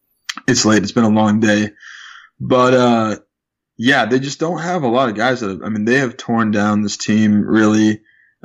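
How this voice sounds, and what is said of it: Hoarse, fading voice. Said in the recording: “I'm losing my voice a little bit here”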